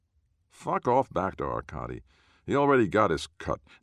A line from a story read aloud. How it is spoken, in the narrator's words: Noah growls